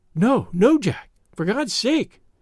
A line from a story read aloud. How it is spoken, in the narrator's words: she gasped in uncontrollable emotion